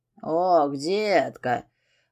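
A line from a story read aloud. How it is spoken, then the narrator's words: Purring close to ear. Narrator (Russian): мурлыкал над ухом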